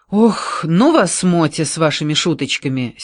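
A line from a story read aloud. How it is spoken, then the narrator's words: Angry exclamation. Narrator (Russian): сердито воскликнула Вера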